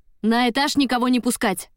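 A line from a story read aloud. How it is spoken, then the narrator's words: Barked while running. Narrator (Russian): рявкнул на бегу Осип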